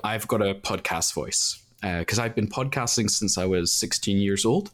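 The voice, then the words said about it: Slight Northern Irish accent. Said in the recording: “there is obviously a touch of Northern Irish”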